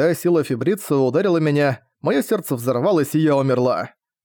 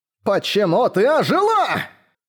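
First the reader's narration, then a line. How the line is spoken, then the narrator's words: Yelling. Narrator (Russian): заорал он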